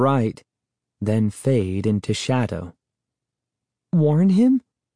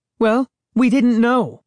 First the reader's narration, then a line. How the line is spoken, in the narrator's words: Sari snapped